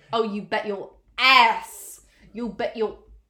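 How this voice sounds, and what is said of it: Put-on accent, unspecified. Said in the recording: “I don't know why I'm doing that accent.”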